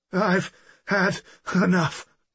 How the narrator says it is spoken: the man gasped, clearly helpless to defend himself

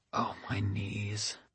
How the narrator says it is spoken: she whispered

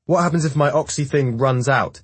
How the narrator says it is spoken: Jackson yells from somewhere up ahead

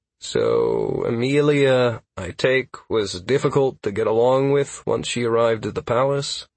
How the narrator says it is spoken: I asked hesitantly

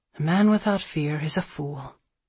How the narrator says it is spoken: He grunted and said

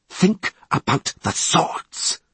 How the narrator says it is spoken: hissed Litta

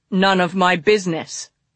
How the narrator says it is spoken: he growled

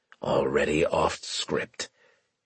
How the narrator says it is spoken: Graves muttered

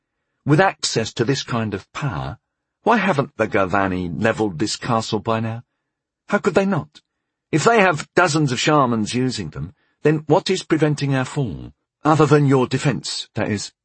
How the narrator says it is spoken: he added smoothly

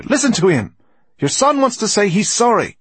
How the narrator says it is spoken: she cried

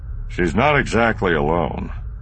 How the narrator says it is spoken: Han said dryly

